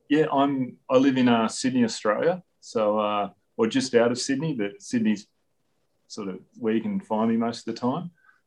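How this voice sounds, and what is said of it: Australian accent. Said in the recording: “there's a slight accent difference”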